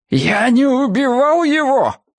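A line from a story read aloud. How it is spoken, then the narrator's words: Shouted out loud. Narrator (Russian): крикнул Брикс всему миру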